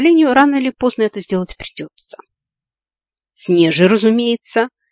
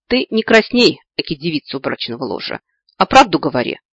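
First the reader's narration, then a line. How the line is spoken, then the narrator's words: Annoyed snort, cat. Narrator (Russian): раздосадованно фыркнула кошка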